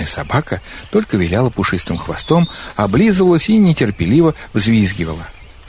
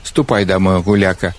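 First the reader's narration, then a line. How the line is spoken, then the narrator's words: Grumbling old man. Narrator (Russian): ворчал старик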